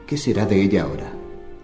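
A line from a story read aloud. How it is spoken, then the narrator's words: Quiet question. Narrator (Spanish): pregunté en voz baja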